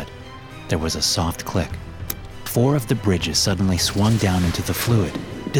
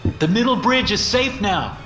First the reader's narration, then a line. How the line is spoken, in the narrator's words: I yelled